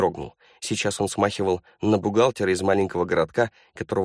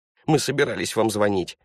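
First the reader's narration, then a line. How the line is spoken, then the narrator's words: Babbling. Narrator (Russian): залепетал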